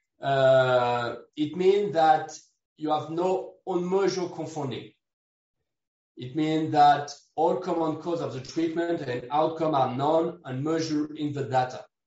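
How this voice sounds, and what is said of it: Non-native English accent. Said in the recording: “Sorry for my accent.”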